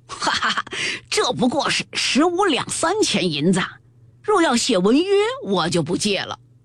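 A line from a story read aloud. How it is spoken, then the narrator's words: Loud laughter. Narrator (Chinese): 倪二大笑道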